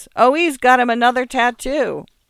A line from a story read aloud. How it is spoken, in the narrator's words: the man asked